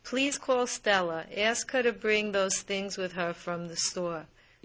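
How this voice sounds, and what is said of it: Distinct Brooklyn accent. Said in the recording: “this Brooklyn speaker ... It's a very distinct accent”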